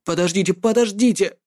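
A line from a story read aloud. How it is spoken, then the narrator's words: Hoarse, stalling for time. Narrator (Russian): прохрипел, пытаясь выиграть время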